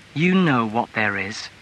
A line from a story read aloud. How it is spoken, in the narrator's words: she said coldly